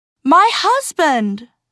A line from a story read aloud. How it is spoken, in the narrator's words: She cried